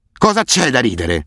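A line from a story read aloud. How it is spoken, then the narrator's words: Roaring. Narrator (Italian): ruggiva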